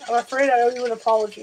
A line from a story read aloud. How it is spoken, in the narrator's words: said, nearly choking on the words